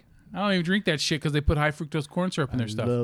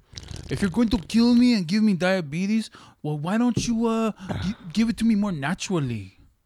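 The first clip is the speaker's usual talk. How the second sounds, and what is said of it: Put-on cholo accent. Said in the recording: “you like that accent ... I love that fucking accent is one of the coolest ... the cholo”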